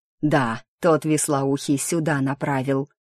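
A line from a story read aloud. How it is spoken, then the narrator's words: Confident, low hoarse voice. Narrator (Russian): возразил второй с уверенностью, в тональности на грани между низким басом и хриплым шорохом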